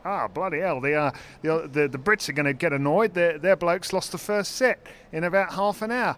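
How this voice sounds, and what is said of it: Imitated Australian accent. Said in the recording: “that was a good accent, wasn't it?”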